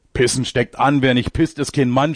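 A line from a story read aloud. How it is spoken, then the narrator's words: Shouting. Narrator (German): schreit er jetzt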